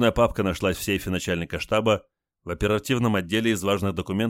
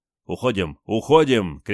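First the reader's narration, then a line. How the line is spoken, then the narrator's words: Shout into empty corridors. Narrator (Russian): крикнул он в опустевшие коридоры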